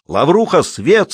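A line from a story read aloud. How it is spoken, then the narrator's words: Shouted again. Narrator (Russian): снова прокричал Скобеев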